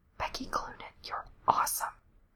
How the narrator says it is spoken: Lindsay whispers in her ear

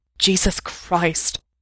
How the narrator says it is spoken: Mikey panted

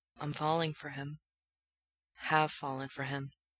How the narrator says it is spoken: he says softly

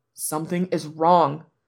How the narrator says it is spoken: Lan Wangji repeats

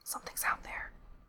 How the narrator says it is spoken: he whispered

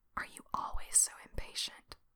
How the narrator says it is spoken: he whispers into Frank's cheek

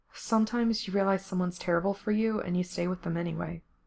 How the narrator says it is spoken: Gerard said quietly

